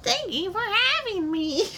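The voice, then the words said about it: Small childlike little man voice. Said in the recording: “What is that voice? ... That a little kid? ... It's a little man. ... little devil man? ... That little weird man?”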